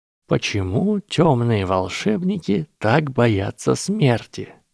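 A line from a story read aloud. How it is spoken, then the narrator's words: Drawled. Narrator (Russian): протянул Гарри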